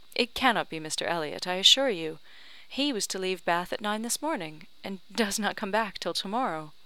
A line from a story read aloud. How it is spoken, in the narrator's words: cried Anne quickly